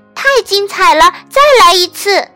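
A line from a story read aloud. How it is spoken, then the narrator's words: Calling out again. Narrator (Chinese): 但伊丽莎白又叫着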